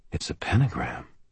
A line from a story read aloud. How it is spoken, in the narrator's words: I said quietly